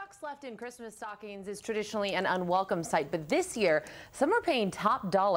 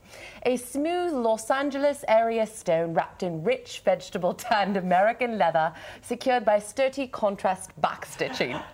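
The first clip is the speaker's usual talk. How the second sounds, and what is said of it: Put-on British accent, not convincing. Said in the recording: “I have to use an English accent. ... she should not have done it with a British accent. ... it's just a recipe for not a good British accent.”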